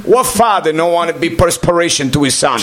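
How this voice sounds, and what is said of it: Heavy accent, imitates another person's voice. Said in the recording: “accent's there. It's not fabricated. That's how my dad talked... He's got a heavy accent... His accent got worse over the years”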